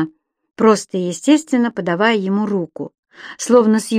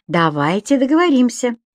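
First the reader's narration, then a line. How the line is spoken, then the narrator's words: Cheerful. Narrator (Russian): весело сказал Виктор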